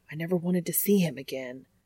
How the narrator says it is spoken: hissing

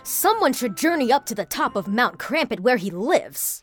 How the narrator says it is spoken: cried another desperate villager

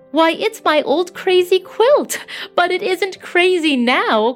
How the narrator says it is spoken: cried Aunt Hannah

